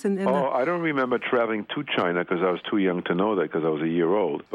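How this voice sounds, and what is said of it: Slight foreign accent. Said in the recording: “you still sort of have an accent”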